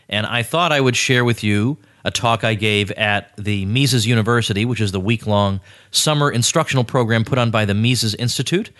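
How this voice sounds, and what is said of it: Sick-sounding voice. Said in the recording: “still under the weather. I don't know if you can tell from my voice or not”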